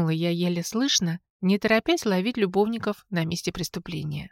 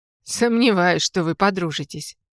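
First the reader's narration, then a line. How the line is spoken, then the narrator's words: Bursting laughter. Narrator (Russian): расхохотался Антон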